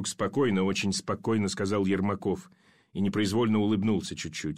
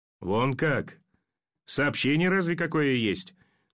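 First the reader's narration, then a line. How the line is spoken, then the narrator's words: Incredulous chuckle. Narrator (Russian): Недоверчиво хохотнул пулеметчик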